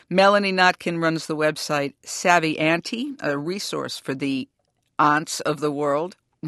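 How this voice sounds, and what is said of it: Massachusetts accent. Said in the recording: “my Massachusetts accent”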